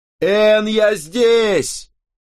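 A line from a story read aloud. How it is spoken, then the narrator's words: Shout. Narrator (Russian): закричал я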